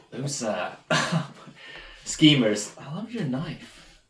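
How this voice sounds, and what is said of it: Put-on American transatlantic accent. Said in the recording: “You don't all have to do American accents... Luke's doing a sort of American accent... I'm doing transatlantic.”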